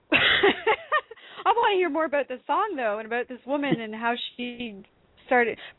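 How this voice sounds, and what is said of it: Slight Canadian accent. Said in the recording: “you have a little bit of a Canadian accent going on there... Oh, just a wee bit... I might have a wee bit of a Canadian accent going on there... I'm Canadian, eh?... I could hear it in your voice”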